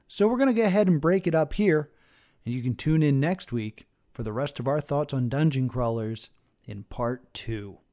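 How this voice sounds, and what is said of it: Scratchy, worn voice. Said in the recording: “my voice is a little bit scratchy right now because we've recorded for 2 hours”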